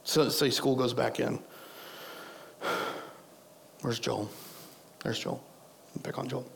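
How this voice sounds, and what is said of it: Strained, fading voice. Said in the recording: “I told you I'm losing my voice.”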